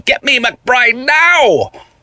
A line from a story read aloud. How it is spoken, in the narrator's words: The person on the phone shouted